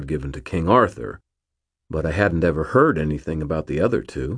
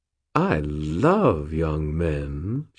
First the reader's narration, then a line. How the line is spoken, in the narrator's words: purred